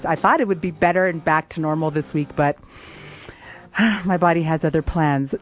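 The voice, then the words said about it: Raspy voice. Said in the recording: “bearing with my raspy voice”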